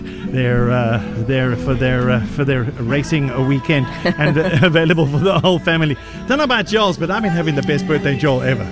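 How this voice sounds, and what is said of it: Out of breath, breathless speech. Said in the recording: “we can hear you're out of breath ... You're dancing.”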